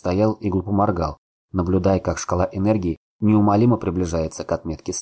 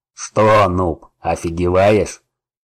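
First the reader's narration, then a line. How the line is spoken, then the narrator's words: Growl from behind. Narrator (Russian): прорычал кто-то сзади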